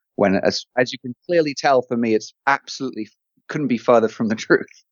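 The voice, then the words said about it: English accent. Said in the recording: “having an English accent”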